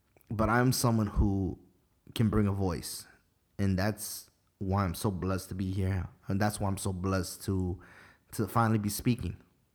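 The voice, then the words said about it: Emotional voice, changing tone. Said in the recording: “when my voice changes tone, it means I'm getting emotional”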